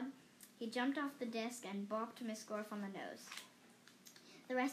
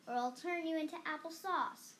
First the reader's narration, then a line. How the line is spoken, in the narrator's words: shouted